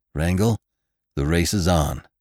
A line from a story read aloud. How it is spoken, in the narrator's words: said Venters grimly